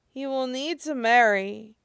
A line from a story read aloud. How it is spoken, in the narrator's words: Tang Fan mumbles